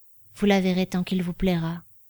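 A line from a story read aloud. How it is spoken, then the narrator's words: Toneless reply. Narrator (French): répondit-il d'une voix blanche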